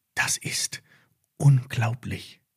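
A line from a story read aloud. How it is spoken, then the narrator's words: Whispered. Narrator (German): flüsterte Lilly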